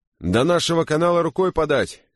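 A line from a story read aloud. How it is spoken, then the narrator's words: Shouting from afar. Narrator (Russian): крикнул с носа Литл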